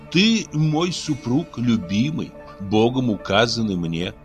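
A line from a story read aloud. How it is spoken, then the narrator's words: Plain. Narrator (Russian): ответила она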